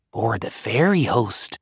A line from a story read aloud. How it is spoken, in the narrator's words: Brona whispered